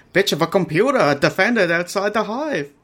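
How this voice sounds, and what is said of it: Wandering accent imitating James Malfoy. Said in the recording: “as a James Malfoy, his accent goes all over the place”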